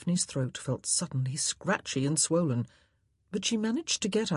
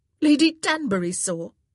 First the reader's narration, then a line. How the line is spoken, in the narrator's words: Daphne asked sharply